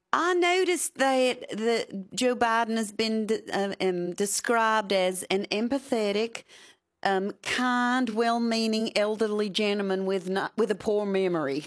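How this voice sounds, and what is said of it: Louisiana accent. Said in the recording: “your Louisiana accent”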